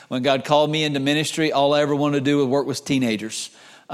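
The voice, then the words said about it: North Carolina accent. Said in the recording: “where are you from? Because of my accent. I'm from North Carolina originally”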